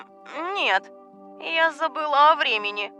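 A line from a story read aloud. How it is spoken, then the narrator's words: Soft babbling. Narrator (Russian): пролепетала она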